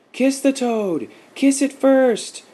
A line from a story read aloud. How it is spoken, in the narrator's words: cried out the children